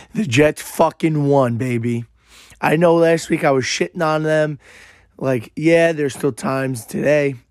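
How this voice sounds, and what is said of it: Hoarse, strained, worn-out voice. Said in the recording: “My voice is literally shot from the game on Sunday ... I literally couldn't talk for the past 2-3 days ... Sorry if my voice is this bad”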